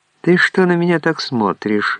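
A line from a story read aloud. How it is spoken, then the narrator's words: Mocking laugh. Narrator (Russian): засмеялась она, как на дуру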